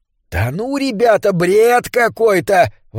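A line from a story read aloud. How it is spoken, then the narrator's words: Priest's exclamation. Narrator (Russian): воскликнул поп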